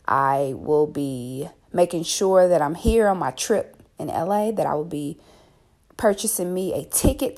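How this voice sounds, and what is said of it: Raspy, just-woke-up voice. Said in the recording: “I know I sound a little raspy. I just got up.”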